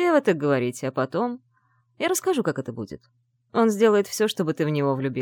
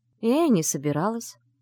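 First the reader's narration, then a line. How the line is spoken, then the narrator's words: Dry remark. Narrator (Russian): сухо заметила Вивьен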